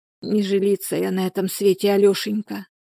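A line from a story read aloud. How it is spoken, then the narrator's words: Whispered. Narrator (Russian): прошептала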